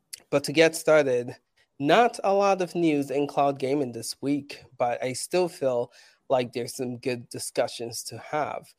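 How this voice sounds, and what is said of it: Sick, unwell-sounding voice. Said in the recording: “Not feeling good. I don't know if you can tell by my voice.”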